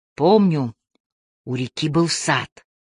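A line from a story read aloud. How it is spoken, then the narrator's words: Quiet German man. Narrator (Russian): тихо сказал немец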